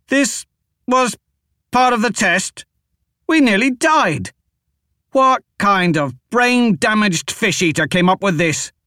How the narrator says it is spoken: Devadas shouted as he wiped the blood from his face

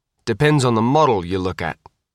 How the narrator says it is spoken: Tom said

